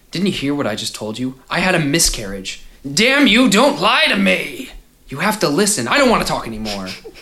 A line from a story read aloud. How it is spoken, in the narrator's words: said roughly